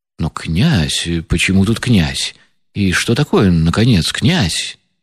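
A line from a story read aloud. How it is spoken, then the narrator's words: Muttering, barely restrained indignation. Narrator (Russian): пробормотал генерал, почти уж не в силах сдерживать свое негодование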